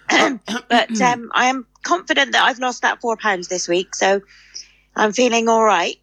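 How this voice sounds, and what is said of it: Croaky voice. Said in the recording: “I've got a frog in my throat.”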